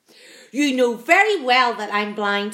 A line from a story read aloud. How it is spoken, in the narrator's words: snapped the earthworm